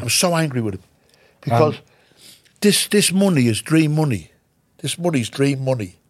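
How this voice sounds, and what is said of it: Emotional, close to tears. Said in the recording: “I'm getting emotional here now ... eyes are watering ... I'm an emotional wreck”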